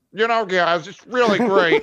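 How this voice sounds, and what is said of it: Exaggerated annoying version of own voice. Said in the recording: “my voice is super annoying ... I sound like this ... This is what my voice sounds like to me.”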